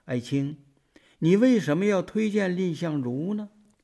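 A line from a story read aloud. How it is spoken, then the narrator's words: Soft question. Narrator (Chinese): 赵惠文王轻声的问道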